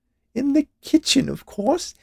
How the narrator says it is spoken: she added with a laugh, as if it was the funniest thing anyone had ever said

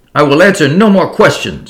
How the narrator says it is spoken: screamed the dancer

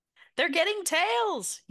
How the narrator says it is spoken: yell

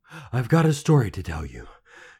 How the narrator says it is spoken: panted

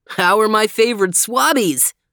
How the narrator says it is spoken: He laughed

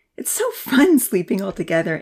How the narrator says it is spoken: Amy giggled

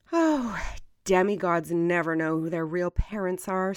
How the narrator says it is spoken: sighed Athena

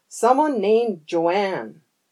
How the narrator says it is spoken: Todd shouted

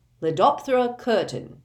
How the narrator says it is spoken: Curtin growled

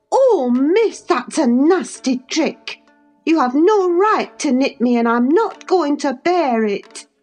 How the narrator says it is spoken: screamed out

